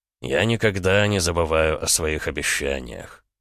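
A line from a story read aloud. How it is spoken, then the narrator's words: Purring. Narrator (Russian): промурлыкал великий князь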